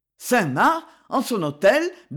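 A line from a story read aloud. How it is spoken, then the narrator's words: Stammering in terror. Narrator (French): bégaya Richelieu avec une sorte d'épouvante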